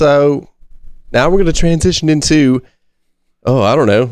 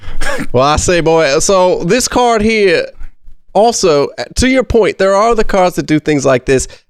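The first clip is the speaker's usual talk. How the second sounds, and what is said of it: Put-on Midwestern country accent. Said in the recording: “Maybe like a Midwestern country accent here... you are terrible at doing accents.”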